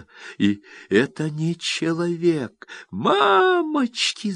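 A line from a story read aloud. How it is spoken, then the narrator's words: Shrieking. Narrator (Russian): завизжала Ленка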